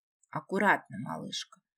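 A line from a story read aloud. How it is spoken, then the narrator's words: Whisper. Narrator (Russian): прошептал он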